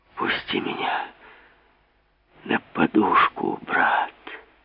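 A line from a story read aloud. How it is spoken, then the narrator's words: Whispered. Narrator (Russian): шептал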